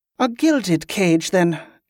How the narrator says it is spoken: Ali groaned

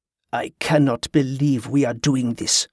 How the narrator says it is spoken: Grievous snapped

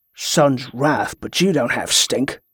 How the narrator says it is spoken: muttered the sailor

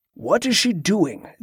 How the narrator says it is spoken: the abbot grumbled

